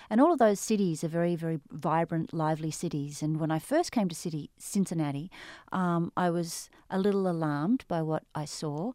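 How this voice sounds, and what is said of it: Australian accent. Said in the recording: “you can tell from my accent, probably, the listeners can. I'm an Australian”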